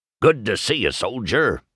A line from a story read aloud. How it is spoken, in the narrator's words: barked the old Jeep